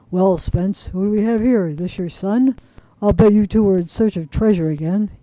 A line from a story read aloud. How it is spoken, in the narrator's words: The old man in a low, gruff voice said